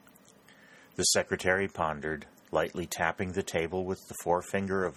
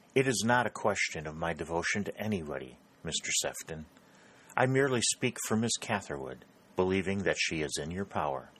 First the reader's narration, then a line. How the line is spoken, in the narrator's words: Prescott flushed an angry red, but remembering his resolve, he replied quietly